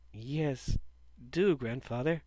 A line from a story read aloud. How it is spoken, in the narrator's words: replied sleepily